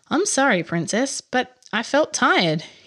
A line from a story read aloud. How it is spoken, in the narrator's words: said